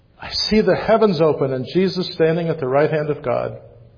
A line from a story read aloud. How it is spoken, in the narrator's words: he cried out